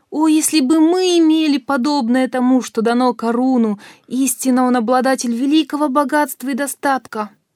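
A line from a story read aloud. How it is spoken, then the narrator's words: Envious exclamation. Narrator (Russian): Те люди, которые пребывали в невежестве и неверии, воскликнули, завидев подобную роскошь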